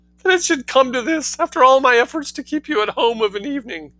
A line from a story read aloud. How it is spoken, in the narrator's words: sobbed Mrs